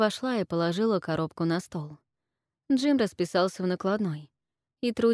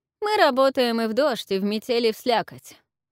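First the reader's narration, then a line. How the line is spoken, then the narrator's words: Sarcastic, from a distance. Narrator (Russian): Язвительно отозвалась она из коридора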